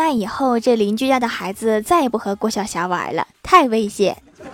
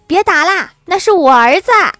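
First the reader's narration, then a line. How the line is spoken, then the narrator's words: Shouted call. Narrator (Chinese): 邻居喊了一声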